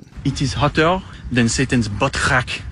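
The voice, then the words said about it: French accent. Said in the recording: “The French accent. ... That was French”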